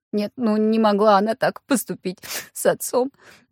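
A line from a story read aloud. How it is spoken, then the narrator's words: Blurted between sobs. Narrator (Russian): Между всхлипами выпалила Евгения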